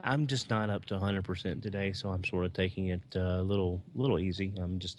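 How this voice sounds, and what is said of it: Smooth, soft whispered speech. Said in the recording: “you're like whispering, which is interesting. It adds some drama ... you're like a light jazz ... it's easy listening ... sounds smooth and cool right now when he's doing that”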